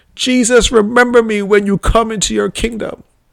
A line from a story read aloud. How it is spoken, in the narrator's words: with pleading in my voice